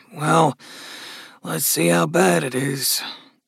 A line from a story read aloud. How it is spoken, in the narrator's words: Gus murmured